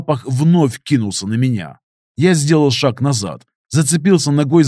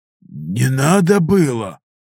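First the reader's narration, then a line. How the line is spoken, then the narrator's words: Hoarse officer. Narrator (Russian): прохрипел особист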